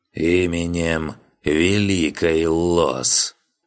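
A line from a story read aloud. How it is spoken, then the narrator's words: Solemn creaky voice. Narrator (Russian): Жрец торжественно проскрипел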